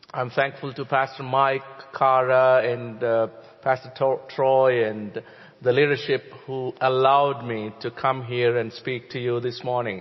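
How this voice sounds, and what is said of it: Non-native English accent. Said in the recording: “I'm not a native English speaker. You know how to forgive my accent”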